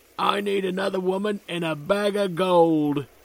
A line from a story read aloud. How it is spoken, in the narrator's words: he bellows